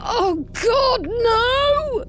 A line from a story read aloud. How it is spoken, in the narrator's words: Joseph screamed